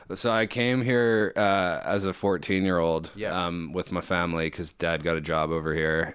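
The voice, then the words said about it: Canadian English accent. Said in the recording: “your accent isn't Kiwi ... I'm Canadian”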